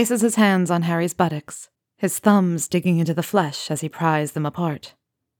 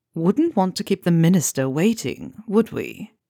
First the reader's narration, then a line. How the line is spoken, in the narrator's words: Draco purrs